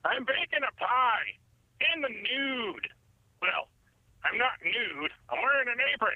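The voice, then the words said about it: Enthusiastic impression of Chuck Bronson. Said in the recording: “That was an enthusiastic impression.”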